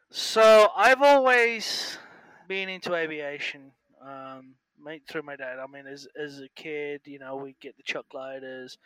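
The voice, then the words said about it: English accent. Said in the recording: “I hear an accent. Are you from Australia? ... No, I'm from England.”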